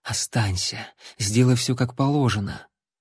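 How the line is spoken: Whispered in ear. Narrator (Russian): шепнула ему на ухо

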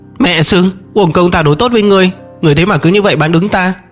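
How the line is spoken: Screamed. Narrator (Vietnamese): thét lên

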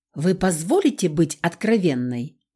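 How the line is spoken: Sharp question. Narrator (Russian): Резким голосом она спросила

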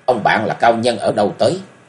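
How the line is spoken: Cold question. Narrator (Vietnamese): chàng cất tiếng lạnh lùng hỏi

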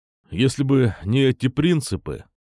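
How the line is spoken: Gloomy. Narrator (Russian): мрачно сказал он

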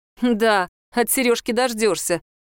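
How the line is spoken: Mocking. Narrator (Russian): насмешливо сказала О

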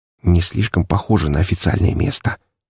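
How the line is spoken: Quiet whisper. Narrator (Russian): тихим шепотом заметил я

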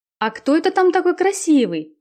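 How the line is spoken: Exclaimed. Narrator (Russian): воскликнула Марина

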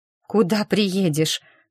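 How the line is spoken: Sleepy question. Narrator (Russian): сонно переспросила я

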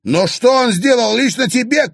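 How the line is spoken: Increasingly heated shout. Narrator (Russian): крикнул Клим, заводясь все больше

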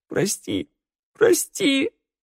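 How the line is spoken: Sobbing. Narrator (Russian): рыдал Раду

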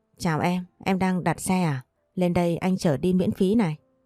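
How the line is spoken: Smiling man speaking. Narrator (Vietnamese): anh mỉm cười nói

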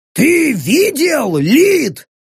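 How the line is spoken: Yelled. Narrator (Russian): заорал Рэг

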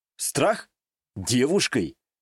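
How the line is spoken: Scoffing. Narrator (Russian): Вновь хмыкнул я

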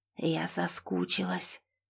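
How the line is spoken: Low guttural voice. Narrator (Russian): произнесла она низким утробным голосом

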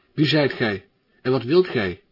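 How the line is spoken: Calling out. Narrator (Dutch): riep zij

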